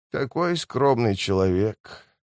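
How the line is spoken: Breathless exhale. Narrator (Russian): выдохнул он

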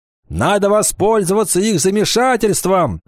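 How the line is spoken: Shouting. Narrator (Russian): закричал Кикахе

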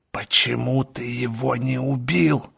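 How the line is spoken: Hiss. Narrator (Russian): прошипела она

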